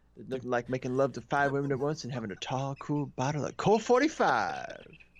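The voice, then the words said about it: Billy Dee Williams impression. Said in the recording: “your Billy Dee Williams impression”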